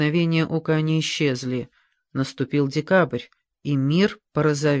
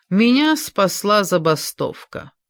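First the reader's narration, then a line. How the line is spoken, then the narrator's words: Father laughing. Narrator (Russian): рассмеялся отец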